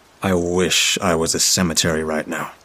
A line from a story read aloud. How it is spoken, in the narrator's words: I muttered